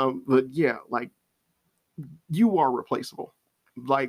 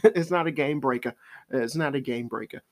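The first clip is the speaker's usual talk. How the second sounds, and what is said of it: Phrase repeated in put-on accent. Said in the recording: “I say it with an accent”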